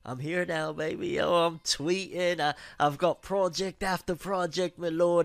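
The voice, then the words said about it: Put-on British accent. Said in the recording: “has a British accent”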